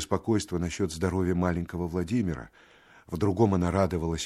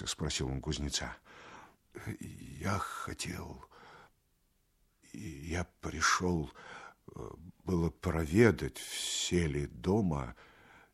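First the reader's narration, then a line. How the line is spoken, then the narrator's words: Quiet, stammering. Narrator (Russian): тихо отвечал Архип, запинаясь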